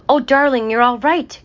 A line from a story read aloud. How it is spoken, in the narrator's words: cried the mother hare